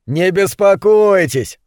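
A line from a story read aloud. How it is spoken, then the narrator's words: Laughing neighbor. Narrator (Russian): засмеялся сосед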